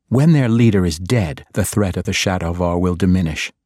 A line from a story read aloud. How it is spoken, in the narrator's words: Dahlia interrupted bluntly and coldly